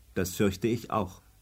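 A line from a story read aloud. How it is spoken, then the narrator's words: Calm. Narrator (German): sagte Tante Else ruhig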